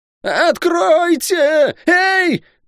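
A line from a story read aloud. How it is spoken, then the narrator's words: Yelling louder than before. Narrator (Russian): пуще прежнего заорал Лук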